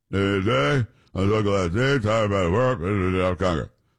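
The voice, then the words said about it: Mumbling imitation of another person's voice. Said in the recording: “he was mumbling his words ... he was mumbling ... I'm doing, you know, an impersonation.”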